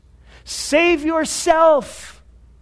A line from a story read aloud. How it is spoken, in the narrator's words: they cried out